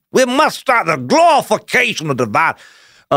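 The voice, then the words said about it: Put-on Southern accent. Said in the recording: “he's also Southern today ... that accent fits people who are really doing that kind of high horse moralizing”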